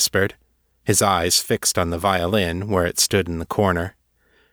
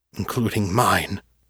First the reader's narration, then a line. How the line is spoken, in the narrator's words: Wells muttered